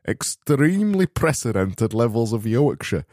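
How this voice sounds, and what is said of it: Poor put-on Yorkshire accent. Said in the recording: “attempting to do a Yorkshire accent that sounds now like a Yorkshire accent. That's fucking shit, that, isn't it?”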